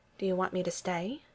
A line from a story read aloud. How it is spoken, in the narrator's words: Betty asked in an undertone